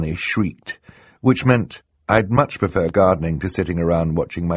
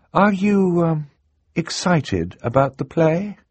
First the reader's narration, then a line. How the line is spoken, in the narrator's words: Violet asked, hesitantly